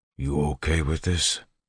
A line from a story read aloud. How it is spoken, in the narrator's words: whispered